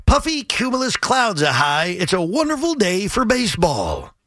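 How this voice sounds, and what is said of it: Imitates a baseball announcer's voice. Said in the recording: “my Bob imitation. I think it's not bad. ... A great Bob Murphy. ... You like my Bob Murphy? It's not bad.”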